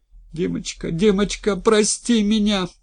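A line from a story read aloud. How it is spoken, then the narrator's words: Sobbing. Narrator (Russian): рыдала девушка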